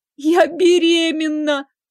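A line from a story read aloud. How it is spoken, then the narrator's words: Howling louder than before. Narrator (Russian): Она взвыла пуще прежнего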